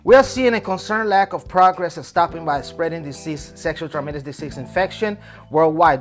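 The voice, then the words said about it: Spanish accent. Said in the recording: “This Spanish accent that I got here. You probably guys are confused by it”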